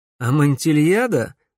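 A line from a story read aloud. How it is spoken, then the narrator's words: Grim smirk. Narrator (Russian): мрачно ухмыльнулся Алекс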